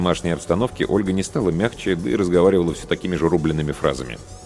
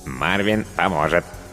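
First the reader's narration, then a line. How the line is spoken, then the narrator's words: Cartoonish robot voice. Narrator (Russian): подтвердил робот мультяшным голосом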